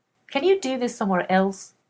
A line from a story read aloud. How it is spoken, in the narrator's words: He snaps as if they were eavesdropping on him